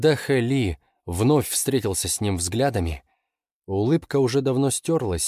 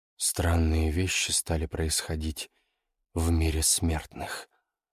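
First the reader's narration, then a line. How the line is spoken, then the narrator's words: Quiet. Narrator (Russian): сказал Ян Цзюнь тихо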